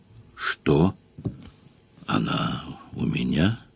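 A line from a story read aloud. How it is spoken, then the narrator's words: Muffled mumble into pillow. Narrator (Russian): бормотнула Эва в подушку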